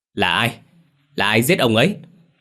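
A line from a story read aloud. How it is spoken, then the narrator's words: Furious scream. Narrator (Vietnamese): Hắn điên tiết gào lên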